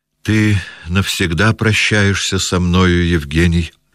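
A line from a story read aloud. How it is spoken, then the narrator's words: Sad. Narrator (Russian): печально промолвил Аркадий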